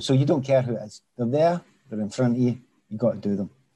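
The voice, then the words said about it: Glaswegian Scottish accent. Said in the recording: “You can tell my Glaswegian accent's coming back when I'm talking about it ... Yeah, you can hear it.”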